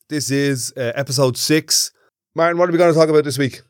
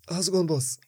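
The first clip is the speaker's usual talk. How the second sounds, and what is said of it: Attempted Irish Traveller accent. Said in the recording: “I'm trying to do a traveller accent... That sounds like Christy Moore. He's not a traveller.”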